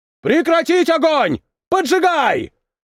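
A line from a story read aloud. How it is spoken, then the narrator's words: Shouting. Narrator (Russian): закричал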